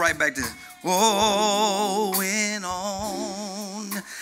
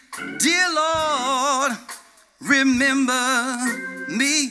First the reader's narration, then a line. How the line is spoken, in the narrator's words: one of them cried out to him